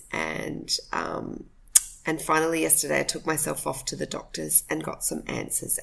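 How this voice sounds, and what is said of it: Husky, slightly hoarse voice. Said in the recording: “my voice is a little husky ... I've been really quite sick”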